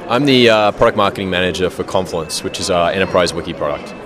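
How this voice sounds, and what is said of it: Australian accent. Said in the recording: “started in Sydney ... That's where the accent comes from.”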